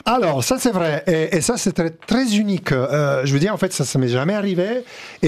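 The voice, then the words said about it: Italian accent in French. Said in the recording (French): “mon accent fait partie de mon identité ... on vous a reproché votre accent ... c'était trop italien”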